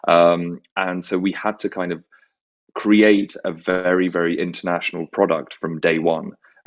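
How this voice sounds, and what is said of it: British English accent. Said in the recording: “the UK because, you know, of, I guess, my accent.”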